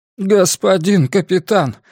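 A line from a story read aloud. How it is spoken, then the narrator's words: Sudden moan. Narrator (Russian): внезапно простонал Гарпаго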